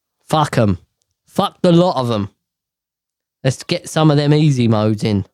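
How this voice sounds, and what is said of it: Usual voice. Nothing is said of it.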